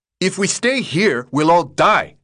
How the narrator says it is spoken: Minho yelled

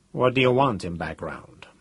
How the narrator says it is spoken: Cathcart asked coolly

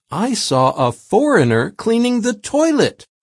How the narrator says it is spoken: one man exclaimed

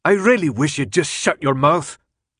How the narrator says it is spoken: Newt finally spat

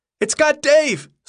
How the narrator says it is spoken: someone yelled, the voice high-pitched with terror

